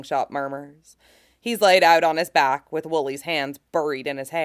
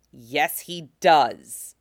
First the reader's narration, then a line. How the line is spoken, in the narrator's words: Cody growls, voice nearly subsonic